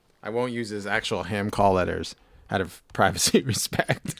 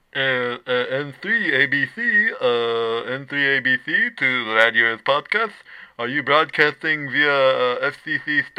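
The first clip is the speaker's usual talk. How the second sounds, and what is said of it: Impression of a father on ham radio. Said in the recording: “do an impression of my dad calling into the show on his radio”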